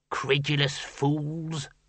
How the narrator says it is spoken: muttered the senior wrangler

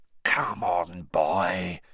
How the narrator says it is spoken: whispered Moody

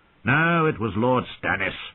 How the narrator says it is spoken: Walder Frey said irritably

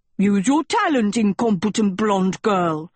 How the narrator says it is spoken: Sheba barked

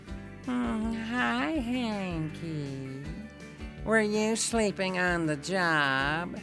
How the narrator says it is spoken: the alleged cat said in a whiny voice

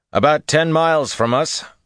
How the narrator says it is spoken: Rand said loudly

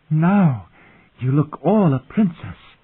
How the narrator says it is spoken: the girl said breathlessly

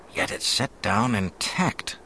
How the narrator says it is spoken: the officer was murmuring to himself

